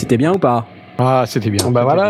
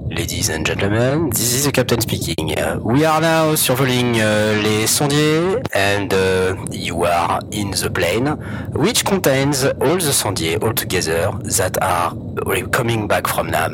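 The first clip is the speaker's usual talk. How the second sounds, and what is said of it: English with a French accent. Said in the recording (French): “my charming French accent”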